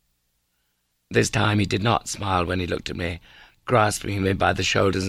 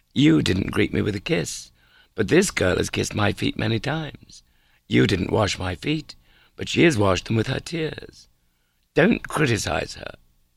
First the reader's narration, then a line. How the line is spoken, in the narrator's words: he said firmly